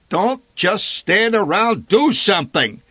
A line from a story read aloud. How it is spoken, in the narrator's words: He bellowed